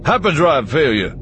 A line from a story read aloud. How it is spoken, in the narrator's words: Lando shouted over his shoulder as he all but threw himself down the stairs